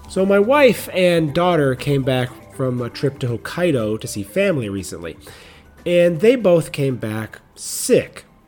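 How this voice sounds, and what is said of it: Slightly funny, sick-sounding voice. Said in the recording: “my voice sounds a little funny today”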